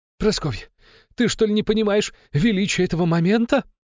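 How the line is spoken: Loud joyful shouting man. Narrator (Russian): радостно выкрикивал громкий мужик

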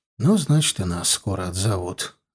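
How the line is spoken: Sighing. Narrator (Russian): вздохнув, проговорил Гончаров

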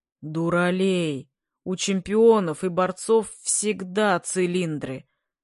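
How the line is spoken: Lazy sleepy deep bass. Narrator (Russian): басил лениво размякший и осовевший от бессонной ночи Бабаев

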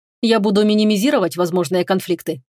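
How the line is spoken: Plain. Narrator (Russian): ответил Фенрис

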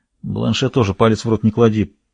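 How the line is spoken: Muttered. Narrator (Russian): пробормотал Севран

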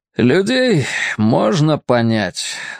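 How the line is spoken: Sighed. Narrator (Russian): вздохнул

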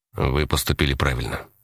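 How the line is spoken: Quiet. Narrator (Russian): сказал он негромко

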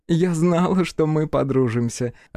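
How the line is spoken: Laughing. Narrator (Russian): рассмеялась Эрна

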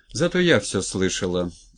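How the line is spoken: Icy tone. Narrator (Russian): ледяным тоном произнесла Галя

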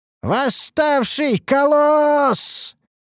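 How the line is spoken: Hysterical shout, soldier. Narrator (Russian): истерично прокричал один из солдат

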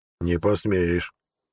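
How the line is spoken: Hoarse wheeze. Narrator (Russian): прохрипел Броган

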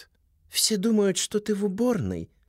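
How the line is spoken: Soft question from woman. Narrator (Russian): мягко спрашивает женщина

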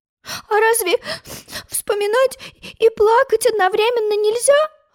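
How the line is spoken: Sobbing question. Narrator (Russian): всхлипывая, спросила Алиса

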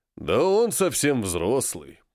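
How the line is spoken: Deep bass voice. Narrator (Russian): пробасил гость

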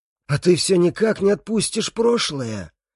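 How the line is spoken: Hoarse, spitting blood. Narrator (Russian): хрипит он, сплевывая кровь

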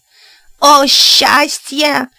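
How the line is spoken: Joyful yelling. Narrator (Russian): завопил Ло и Гайре

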